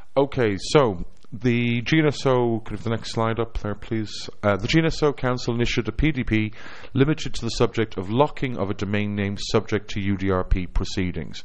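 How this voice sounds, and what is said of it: Irish accent. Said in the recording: “my charming Irish accent”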